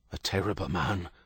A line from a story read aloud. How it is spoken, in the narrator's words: Father Michael whispered